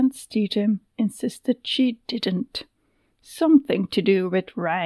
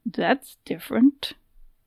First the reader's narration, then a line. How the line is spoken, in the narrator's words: she muttered